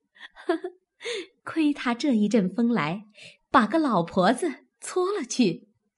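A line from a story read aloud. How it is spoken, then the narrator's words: Laughing together, clapping. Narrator (Chinese): 宝钗、黛玉见凤姐儿这般，都拍手笑道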